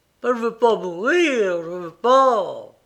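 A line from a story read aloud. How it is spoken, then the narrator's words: Groaning. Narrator (French): gémit-il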